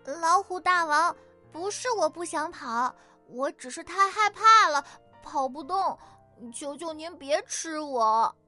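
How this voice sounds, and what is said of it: Feigned frightened voice. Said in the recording (Chinese): “装出害怕的声音”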